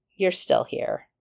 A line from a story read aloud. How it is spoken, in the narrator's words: he said coldly